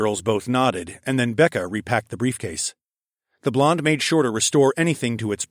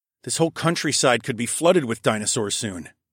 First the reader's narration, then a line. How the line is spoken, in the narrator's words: I said